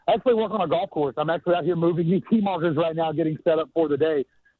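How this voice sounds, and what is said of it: Out of breath. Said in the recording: “Why are you so out of breath?”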